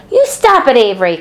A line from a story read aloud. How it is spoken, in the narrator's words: cried Fern